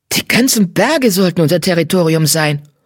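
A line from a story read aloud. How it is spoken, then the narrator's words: Hissing cat. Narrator (German): fauchte der schwarze Kater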